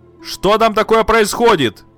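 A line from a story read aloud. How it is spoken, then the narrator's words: Shouted. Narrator (Russian): Мать крикнула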